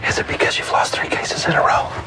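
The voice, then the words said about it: Whispered speech. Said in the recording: “Whispering”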